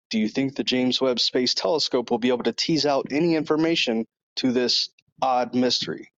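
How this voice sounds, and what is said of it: Great radio voice. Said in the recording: “great radio voice, by the way, I might add. That's, you sound great.”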